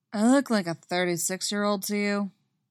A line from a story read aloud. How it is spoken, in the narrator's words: he asks, his voice completely deadpan